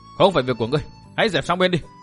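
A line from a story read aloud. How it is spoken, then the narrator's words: Woman's loud shout. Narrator (Vietnamese): Một trong hai tỷ nữ quát to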